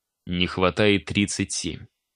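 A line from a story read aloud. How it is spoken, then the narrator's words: Even tone. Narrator (Russian): ровным тоном продолжил я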